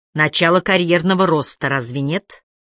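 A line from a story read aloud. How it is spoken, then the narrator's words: Snort. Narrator (Russian): Холм фыркнул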